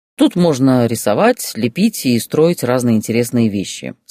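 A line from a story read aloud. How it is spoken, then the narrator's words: Plain. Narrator (Russian): сказал он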